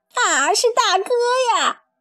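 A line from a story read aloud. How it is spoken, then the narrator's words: Delighted cry. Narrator (Chinese): 一只耳惊喜地叫起来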